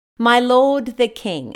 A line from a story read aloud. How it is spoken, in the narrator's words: David called out to him, saying